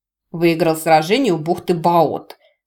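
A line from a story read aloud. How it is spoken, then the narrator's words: Grudging condescending mutter. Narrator (Russian): процедил очкарик, словно сделал огромное одолжение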